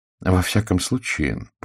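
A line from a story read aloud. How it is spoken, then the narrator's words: More serious tone. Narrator (Russian): продолжал он куда более серьезным тоном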